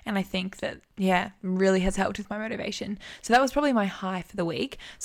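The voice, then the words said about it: Crackly, strained voice. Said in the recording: “my voice, can you hear my voice is like kind of crackly? ... Yeah, it is a little bit.”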